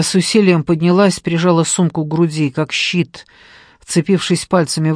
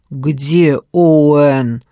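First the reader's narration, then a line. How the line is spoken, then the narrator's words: Growling. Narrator (Russian): прорычал он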